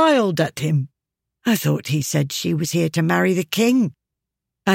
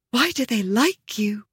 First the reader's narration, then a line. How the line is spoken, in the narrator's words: She whispered, her lips moving against his throat